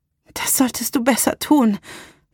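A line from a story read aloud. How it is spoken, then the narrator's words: Panting female voice. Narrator (German): sagte sie keuchend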